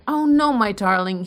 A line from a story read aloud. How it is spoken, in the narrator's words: he cried, recovering his speech